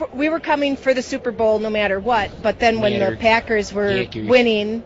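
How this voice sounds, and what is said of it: Strong Wisconsin accent. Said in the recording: “Fond du Lac, Wisconsin. ... that's, I can tell, actually. ... That's a good accent you got there.”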